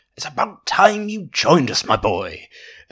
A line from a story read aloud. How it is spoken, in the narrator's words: booming voice preceded the big man's appearance